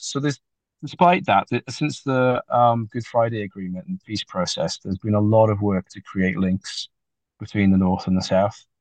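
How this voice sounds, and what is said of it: Welsh accent. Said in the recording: “a man from Wales ... Sometimes the accent is a problem”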